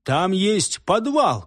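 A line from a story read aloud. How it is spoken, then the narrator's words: Shouting. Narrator (Russian): крикнул я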